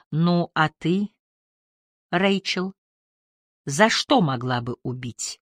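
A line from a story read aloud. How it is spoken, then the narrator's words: Quiet question. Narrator (Russian): негромко спросил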